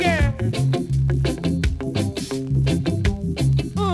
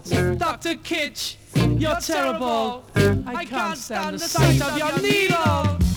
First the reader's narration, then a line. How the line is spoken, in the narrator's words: she start to shout